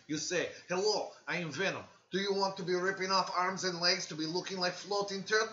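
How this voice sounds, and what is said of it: Put-on Russian accent. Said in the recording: “You're Russian. ... Do Russian. Very good.”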